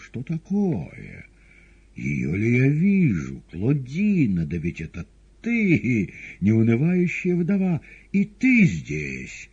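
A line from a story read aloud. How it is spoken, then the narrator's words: Joyful yell. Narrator (Russian): толстяк радостно заорал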